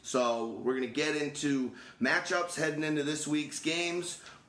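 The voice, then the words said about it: Worn-out, strained voice. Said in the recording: “my voice is a little bit shot”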